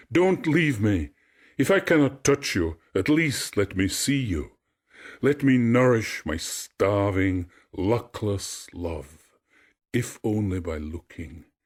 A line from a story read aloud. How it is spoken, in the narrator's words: He cried after it